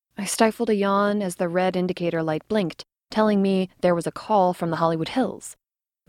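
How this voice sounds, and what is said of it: Usual voice. Nothing is said of it.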